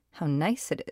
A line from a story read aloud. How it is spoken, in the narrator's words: said